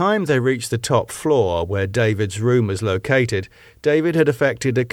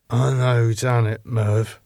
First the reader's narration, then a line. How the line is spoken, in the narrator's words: said David, his voice heavily slurred